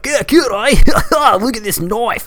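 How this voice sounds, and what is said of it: Stereotypical put-on Australian accent. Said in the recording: “the stereotypical Australian accent in America is just like”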